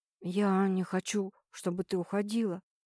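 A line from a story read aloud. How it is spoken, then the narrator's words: Whisper. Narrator (Russian): прошептал снова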